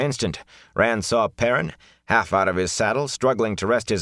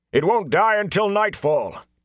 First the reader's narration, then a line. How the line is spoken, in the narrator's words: Tom had to shout between heavy breaths over the unrelenting screams